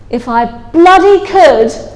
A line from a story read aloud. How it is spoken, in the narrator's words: yelled